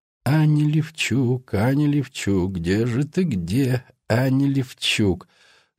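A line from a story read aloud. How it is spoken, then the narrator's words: Half muttering, half singing. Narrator (Russian): То ли бормотал, то ли напевал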